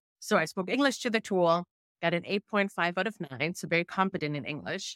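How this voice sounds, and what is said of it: Thick German accent in English. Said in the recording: “my thick German accent sometimes when I speak English”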